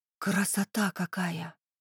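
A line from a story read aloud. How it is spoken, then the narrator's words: Delighted whisper. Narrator (Russian): восторженно прошептала Лера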